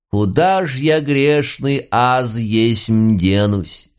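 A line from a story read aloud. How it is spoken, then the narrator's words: Drawn out, with feeling. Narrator (Russian): С чувством протянул Филимон Митрофанович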